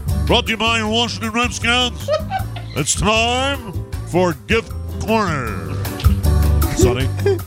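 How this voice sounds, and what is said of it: Announcer voice impression of Larry Michael. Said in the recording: “Let's do a different voice. ... these are announcer requests. Oh, styles of announcer. ... Larry Michael.”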